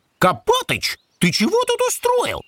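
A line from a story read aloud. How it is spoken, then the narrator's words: Indignant. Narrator (Russian): возмущенно начал Крош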